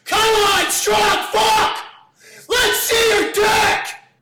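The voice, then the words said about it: Yelling. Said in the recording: “He's yelling at you... He's yelling”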